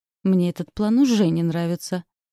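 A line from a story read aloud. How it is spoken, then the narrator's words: Wry snort. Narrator (Russian): хмыкнул Фрэнсис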